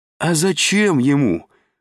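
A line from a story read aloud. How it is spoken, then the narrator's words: Joyful exclamation. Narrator (Russian): радостно вскричал Изя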